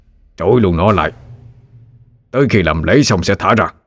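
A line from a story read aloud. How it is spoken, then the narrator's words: Barked order. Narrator (Vietnamese): Phan Văn Trung quát lên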